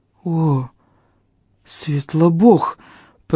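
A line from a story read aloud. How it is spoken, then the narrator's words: Hoarse wheeze. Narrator (Russian): просипел Фарис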